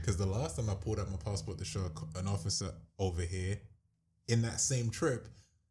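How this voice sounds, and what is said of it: London accent. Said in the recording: “We're from London. ... I figured this accent was good enough.”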